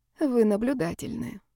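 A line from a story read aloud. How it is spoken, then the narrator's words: Sighing. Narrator (Russian): вздохнула Ева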